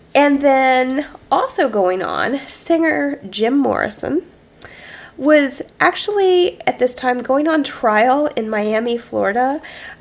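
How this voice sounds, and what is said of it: Voice with a cold. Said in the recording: “I have a cold.”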